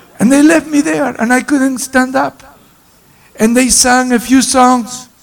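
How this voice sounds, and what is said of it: Non-native accent in English. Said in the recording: “I do have an accent in my English”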